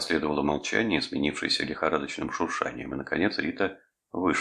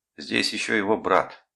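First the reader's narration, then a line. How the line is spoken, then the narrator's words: Angry remark. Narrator (Russian): сердито заметила Эстер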